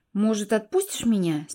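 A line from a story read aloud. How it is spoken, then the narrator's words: Quiet, conciliatory question. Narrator (Russian): спросила тихо, пытаясь избежать ссоры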